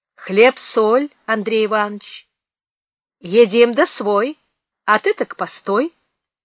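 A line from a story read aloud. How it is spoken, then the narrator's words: Brisk, clipped delivery. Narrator (Russian): бойко отчеканил Федька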